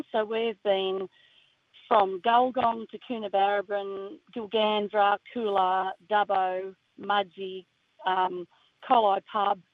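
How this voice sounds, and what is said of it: Hoarse, fading voice. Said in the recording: “Sorry, I'm losing my voice because I've been singing and laughing so much all week.”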